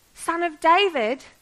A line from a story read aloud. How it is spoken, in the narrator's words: this man shouted to the heavens